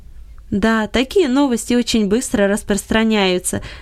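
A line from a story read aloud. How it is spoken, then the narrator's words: Laughing. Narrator (Russian): засмеялся Гельберт Леньерт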